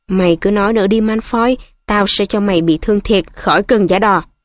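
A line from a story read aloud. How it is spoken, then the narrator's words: Growling. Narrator (Vietnamese): Ron gầm gừ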